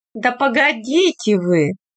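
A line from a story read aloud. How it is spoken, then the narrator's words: Laughing. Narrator (Russian): смеялась Марья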